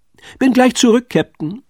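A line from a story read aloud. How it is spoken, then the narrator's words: Called out. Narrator (German): rief Pitt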